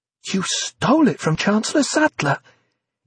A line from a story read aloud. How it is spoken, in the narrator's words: spluttered, almost choking on a bit of egg